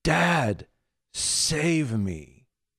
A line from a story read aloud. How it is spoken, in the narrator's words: she finally cried out and she said